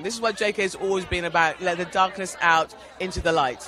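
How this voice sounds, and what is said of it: London English accent. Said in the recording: “that's a London accent, I think”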